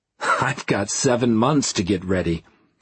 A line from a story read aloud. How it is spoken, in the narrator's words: I said with a laugh